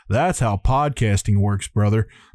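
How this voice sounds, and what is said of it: Bad Hulk Hogan impression. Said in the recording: “That was a bad Hulk Hogan impression”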